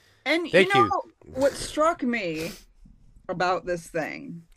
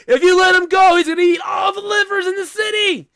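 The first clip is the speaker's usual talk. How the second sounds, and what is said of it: Screaming, very loud voice. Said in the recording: “I'm screaming now”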